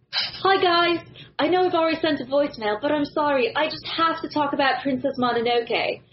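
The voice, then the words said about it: Put-on British accent. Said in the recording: “You have to read it in a British accent ... Wow, you're good.”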